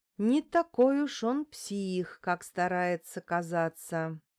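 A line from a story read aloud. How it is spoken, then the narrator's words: Slow, deliberate. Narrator (Russian): медленно проговорила я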